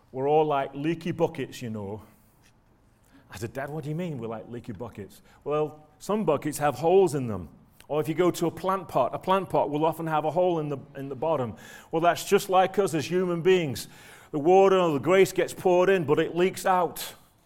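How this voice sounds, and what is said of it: Broad Manchester accent. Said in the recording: “my dad used to say, son, in his broad Manchester accent ... I'm going to stop being Mancunian.”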